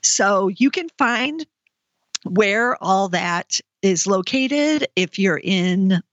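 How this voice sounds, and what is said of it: Voice briefly cracking and failing. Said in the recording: “I'm suddenly losing my voice there for a moment”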